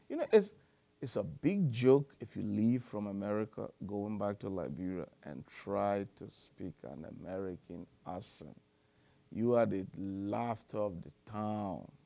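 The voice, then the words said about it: Liberian accent mixed with American. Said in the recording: “maintain a Liberian accent ... mix my whatever American little bit accent with the African accent”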